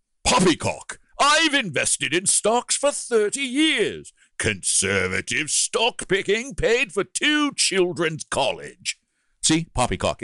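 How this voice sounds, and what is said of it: Put-on old-fashioned British accent. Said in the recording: “It works in a 19th century British accent. ... It does. Yeah. Yeah. Very well. Very well.”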